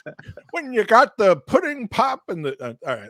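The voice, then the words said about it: Imitates another person's voice. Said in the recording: “that was my Bill Cosby imitation”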